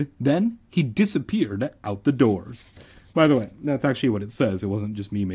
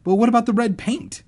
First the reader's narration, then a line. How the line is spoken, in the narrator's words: I cried